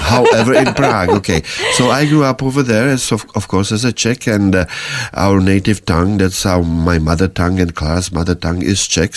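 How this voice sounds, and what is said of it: Czech accent in English. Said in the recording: “We have accent, of course, in English.”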